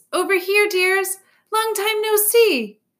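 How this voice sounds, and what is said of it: Delighted character voice. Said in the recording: “in a delighted voice”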